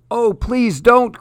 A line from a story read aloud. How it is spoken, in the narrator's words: cried the monkey as he went under